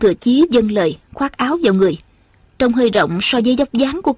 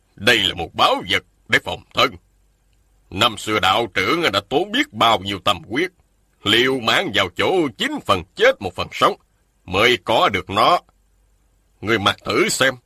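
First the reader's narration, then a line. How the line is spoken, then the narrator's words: Stern. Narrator (Vietnamese): Một nhân thanh nghiêm giọng nói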